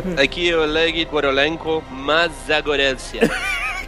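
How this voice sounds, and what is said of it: Put-on foreign accent. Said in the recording (Portuguese): “Sotaque tá tá cada vez.”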